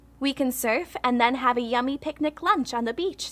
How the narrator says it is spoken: says Layla

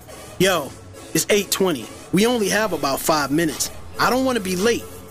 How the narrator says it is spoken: Rashawn sharply confirmed

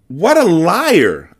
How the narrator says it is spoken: I cried

